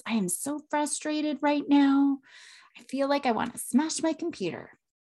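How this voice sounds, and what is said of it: Calm, controlled voice. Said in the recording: “in a really calm voice”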